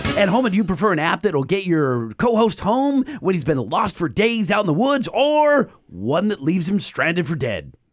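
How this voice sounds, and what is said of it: Smarmy announcer voice. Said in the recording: “swarmy announcer voice”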